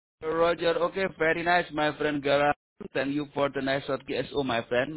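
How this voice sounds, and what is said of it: Indonesian-accented English. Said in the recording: “a very strange dialect from Indonesian people”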